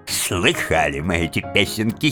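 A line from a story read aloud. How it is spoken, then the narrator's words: Giggle. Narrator (Russian): хихикнул мистер Джабс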